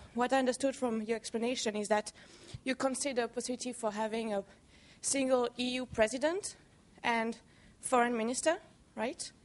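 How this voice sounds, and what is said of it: European accent. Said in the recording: “as you can hear from my accent, I'm very European. I grew up in Belgium, and my father's Italian, my mother's French.”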